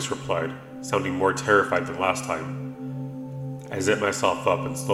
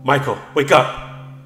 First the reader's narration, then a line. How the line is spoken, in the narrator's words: the woman shrieked